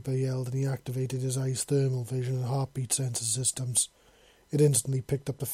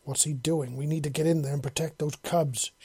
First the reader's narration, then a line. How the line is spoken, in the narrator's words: she snarled in a low voice